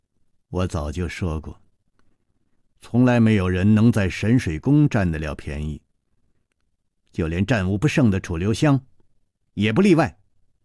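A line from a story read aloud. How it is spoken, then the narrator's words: Cold. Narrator (Chinese): 宫丹燕冷冷地说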